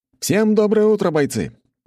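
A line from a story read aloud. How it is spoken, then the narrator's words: Loud. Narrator (Russian): громко произнес я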